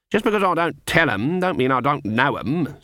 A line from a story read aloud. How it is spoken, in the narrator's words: said Granny haughtily